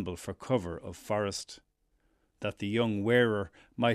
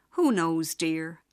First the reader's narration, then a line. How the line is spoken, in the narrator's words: she sighed in the voice of one who had seen much